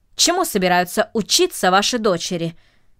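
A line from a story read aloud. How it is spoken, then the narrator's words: Asked sharply. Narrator (Russian): резко спросил джентльмен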